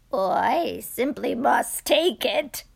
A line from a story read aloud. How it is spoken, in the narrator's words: cried the very old man